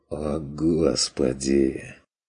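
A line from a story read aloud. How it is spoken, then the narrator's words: Miserable mutter. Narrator (Russian): Тоскливо пробормотал Стрик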